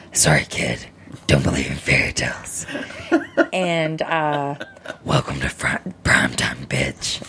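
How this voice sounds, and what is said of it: Freddy Krueger character voice. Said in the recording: “I'm going to do my Freddy voice.”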